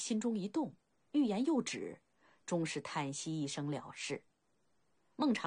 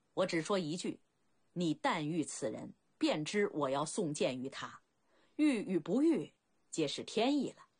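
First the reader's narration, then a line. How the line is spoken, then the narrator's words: Laughing. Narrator (Chinese): 孟尝君笑道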